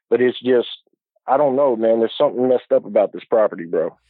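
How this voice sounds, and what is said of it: Southern Ohio area regional accent. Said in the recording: “judging by your accent, I'm assuming this property is in like Southern Ohio”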